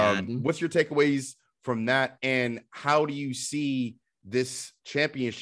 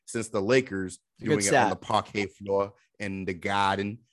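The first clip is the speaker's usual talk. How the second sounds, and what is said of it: Put-on New England accent. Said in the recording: “compliments on the New England accent there on the parquet floor.”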